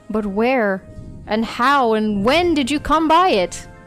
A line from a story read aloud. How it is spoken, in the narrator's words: cried the other